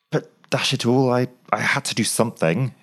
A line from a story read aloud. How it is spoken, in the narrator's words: exclaimed Graham